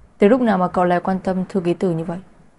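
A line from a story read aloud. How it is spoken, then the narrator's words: Cold voice. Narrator (Vietnamese): Giọng nói lạnh lùng của Mục Bắc Thừa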